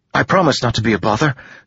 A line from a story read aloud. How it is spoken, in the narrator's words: Joel said eagerly